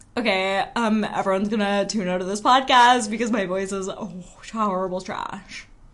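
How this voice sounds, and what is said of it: Imitates another person's voice. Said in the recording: “Should I try to do an impression of you? ... That's really good.”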